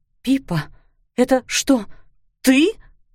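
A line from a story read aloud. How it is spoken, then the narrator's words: Breathless. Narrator (Russian): выдохнула она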